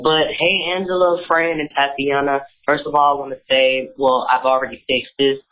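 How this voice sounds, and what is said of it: Raspy, deeper than normal voice. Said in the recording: “Excuse my voice. I'm overcoming a cold, so it's extra raspy and a little deeper than normal.”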